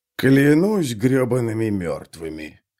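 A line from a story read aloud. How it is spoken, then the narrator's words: Shocked whisper. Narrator (Russian): прошептал Клевер, словно ударенный по лицу одновременно холодом и этим зрелищем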